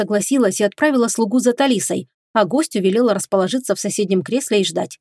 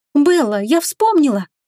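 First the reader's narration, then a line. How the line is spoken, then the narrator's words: Exclaimed. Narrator (Russian): воскликнула она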